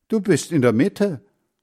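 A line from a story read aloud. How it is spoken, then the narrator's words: Calling out. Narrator (German): rief Heinz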